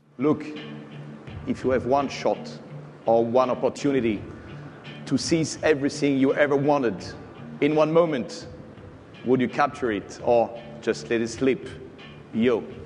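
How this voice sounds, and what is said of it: French accent. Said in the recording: “That yo sounds kind of funny coming in a French accent.”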